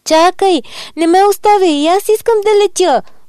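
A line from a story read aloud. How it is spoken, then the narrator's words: Tearful wail. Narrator (Bulgarian): проплака гасеничката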